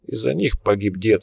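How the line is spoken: Calm reply. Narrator (Russian): спокойно ответил Лунин

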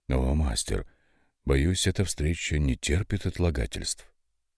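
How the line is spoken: Quiet but insistent. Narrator (Russian): Тихо, но вполне настойчиво продолжил Рональд

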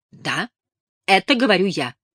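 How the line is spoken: Sharp reply. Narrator (Russian): резко ответила Элис

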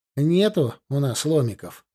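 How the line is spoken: Regretful sigh. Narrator (Russian): вздохнул Денис, сожалея, что не предусмотрел такого развития событий

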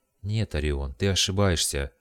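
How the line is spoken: Sad objection. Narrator (Russian): возразила Адена печально

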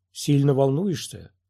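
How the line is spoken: Calm. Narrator (Russian): спокойно начал разговор мастер Джин

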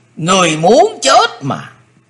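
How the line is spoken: Thunderous roar. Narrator (Vietnamese): Tử Diện Côn Luân rống lên tợ như sấm gầm

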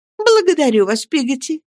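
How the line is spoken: Cheerful mother. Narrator (Russian): весело ответила матушка

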